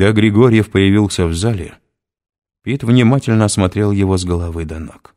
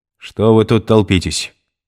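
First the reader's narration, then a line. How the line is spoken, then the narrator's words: Stern. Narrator (Russian): строго сказал Григорьев охранникам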